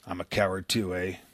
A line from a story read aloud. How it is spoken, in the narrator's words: he muttered